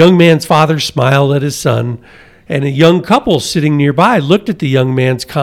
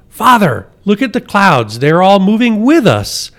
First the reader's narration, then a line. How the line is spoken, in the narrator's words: Suddenly, the young man exclaimed again